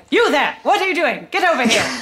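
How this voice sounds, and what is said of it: Snappy transatlantic accent. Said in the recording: “he's very mean and very snappy, and he sounds even snappier in a transatlantic accent”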